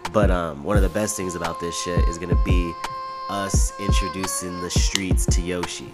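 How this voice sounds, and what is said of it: Rough, allergy-affected voice. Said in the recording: “my voice is a little fucked up. Been having a little allergy attack ... this is why I sound like this”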